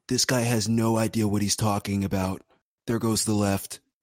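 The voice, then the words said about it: Imitates another person's voice. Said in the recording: “That's pretty good ... I'm just the impersonations guy here.”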